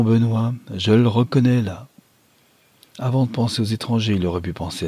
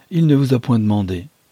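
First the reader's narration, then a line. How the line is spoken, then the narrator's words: Curt retort. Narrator (French): répliqua sèchement Madame d'Alifard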